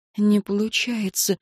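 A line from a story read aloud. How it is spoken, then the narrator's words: Whisper. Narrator (Russian): прошептала Энн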